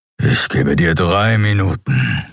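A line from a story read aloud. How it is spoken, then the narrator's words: Growling. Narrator (German): knurrte Keru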